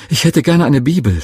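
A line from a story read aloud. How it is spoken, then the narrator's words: Excited stammer. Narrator (German): stotterte ich ganz aufgeregt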